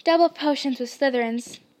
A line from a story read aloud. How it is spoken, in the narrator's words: said Ron